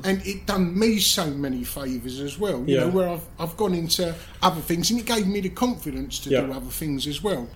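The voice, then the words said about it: Cockney accent. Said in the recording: “having this Cockney accent”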